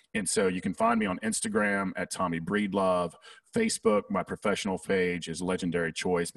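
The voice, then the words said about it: Southern American accent. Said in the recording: “my Southern accent gets in the way sometimes”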